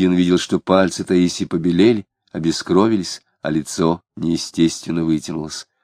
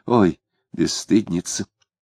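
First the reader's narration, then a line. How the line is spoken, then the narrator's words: Undertone nearby. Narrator (Russian): Близко кто-то сказал вполголоса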